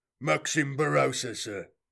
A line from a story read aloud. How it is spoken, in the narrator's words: growled a voice in an accent that could only have come from the depths of the Stranivar Underhive